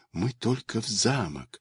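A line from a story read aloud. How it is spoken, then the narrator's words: Nervous frightened whisper. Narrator (Russian): шептала Алишка, колотилась у мышек сердечко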